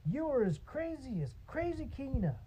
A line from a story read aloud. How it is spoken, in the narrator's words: man shouted